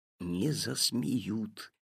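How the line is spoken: Whispered reply. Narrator (Russian): шепотом ответил папа

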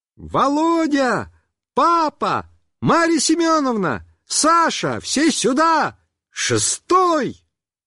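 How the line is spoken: Cheerful shouting. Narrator (Russian): весело захлопала в ладоши и закричала

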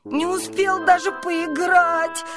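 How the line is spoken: Whimpering. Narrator (Russian): хныкал он

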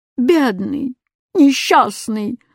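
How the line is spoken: Moaning. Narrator (Russian): застонал восклицательный

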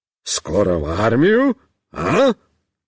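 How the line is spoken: Cheerful exclamation. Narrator (Russian): бодро воскликнет

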